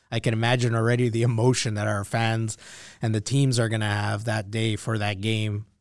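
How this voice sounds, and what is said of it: Hoarse, strained voice. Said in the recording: “losing your voice ... squeeze my throat a little bit”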